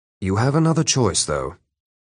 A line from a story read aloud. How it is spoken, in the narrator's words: Prince Baylor said quietly